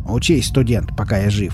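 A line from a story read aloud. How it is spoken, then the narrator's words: Angry mutter. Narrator (Russian): буркнул Изя, кажется, все еще злившийся на него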